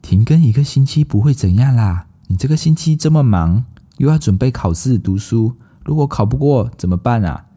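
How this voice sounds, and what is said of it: Tempting devil character voice. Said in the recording (Chinese): “心里就有一个恶魔的声音说”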